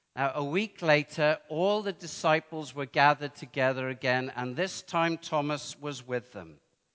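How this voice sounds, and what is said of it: Welsh accent. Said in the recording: “I sound even more Welsh than I did before”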